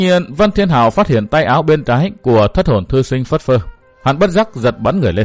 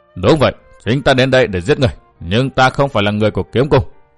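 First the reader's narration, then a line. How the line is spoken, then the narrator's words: Cold. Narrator (Vietnamese): Hắn bèn lạnh lùng nói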